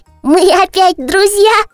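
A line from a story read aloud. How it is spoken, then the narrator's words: Joyful question. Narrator (Russian): радостно спросил барашек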